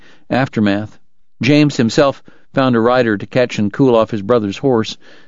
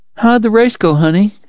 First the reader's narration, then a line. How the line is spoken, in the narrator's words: asked sleepily